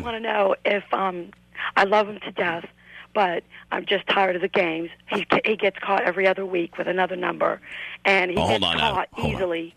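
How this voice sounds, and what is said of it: Raspy voice. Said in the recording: “your voice is awful raspy”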